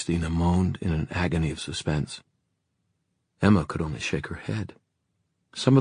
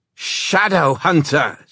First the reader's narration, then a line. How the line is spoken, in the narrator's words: she cried